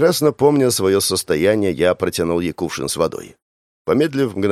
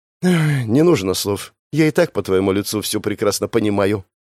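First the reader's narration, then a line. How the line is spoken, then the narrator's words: Sighed. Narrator (Russian): вздохнула Криста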